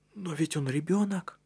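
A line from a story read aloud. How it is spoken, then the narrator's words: Agitated. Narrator (Russian): взволнованно произнес Матиас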